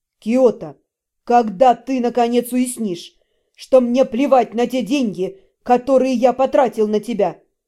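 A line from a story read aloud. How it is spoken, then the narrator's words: Near growl, menacing. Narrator (Russian): Почти прорычал приятель, грозно нависая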